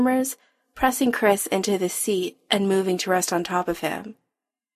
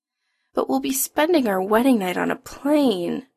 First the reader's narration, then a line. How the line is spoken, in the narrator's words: Adam whines